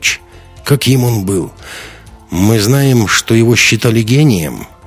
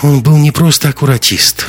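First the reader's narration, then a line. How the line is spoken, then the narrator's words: Sighing. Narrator (Russian): вздохнула Лайза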